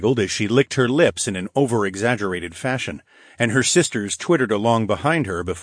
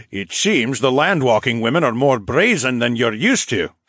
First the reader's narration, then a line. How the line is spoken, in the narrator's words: Phineas chuckled